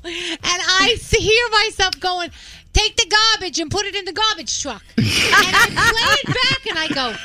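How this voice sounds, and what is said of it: New York accent. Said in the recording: “I'm such a New Yorker. What an accent I got there.”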